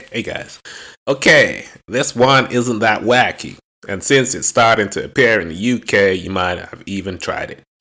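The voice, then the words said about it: Reads aloud in a put-on accent. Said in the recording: “I'm not doing my accent”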